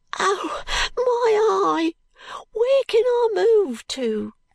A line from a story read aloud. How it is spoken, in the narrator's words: cries the boy, clutching quite desperately at his hair